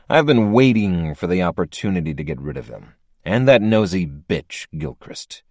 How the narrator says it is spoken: he said through clenched teeth

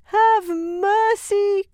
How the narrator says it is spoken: cried

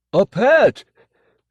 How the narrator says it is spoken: he shouted to the winos, forcing a smile

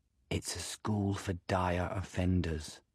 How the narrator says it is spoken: she whispers

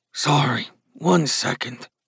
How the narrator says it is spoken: Gus muttered

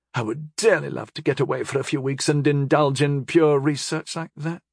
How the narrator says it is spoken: she said dreamily

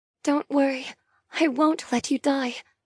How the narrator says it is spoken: murmur, though my words belie my own increasing terror

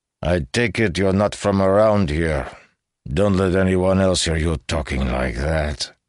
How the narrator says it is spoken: he slurred

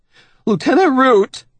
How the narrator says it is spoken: Benjamin says, his voice now high and trembly

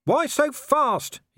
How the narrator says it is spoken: he shouted

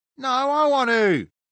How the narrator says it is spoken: Lo shouted

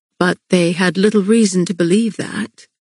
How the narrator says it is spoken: Castile said, his voice hushed

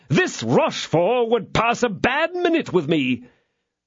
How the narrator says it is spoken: cried Porthos

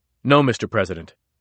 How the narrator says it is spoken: Mattis said quickly

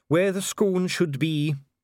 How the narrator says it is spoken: said Dee gloomily

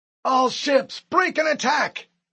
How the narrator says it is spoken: Admiral Stanforth bellowed

